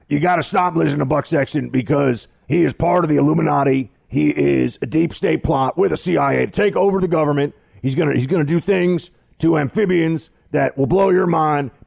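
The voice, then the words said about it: Alex Jones impression. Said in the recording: “Your Alex Jones impression cracks me up every time.”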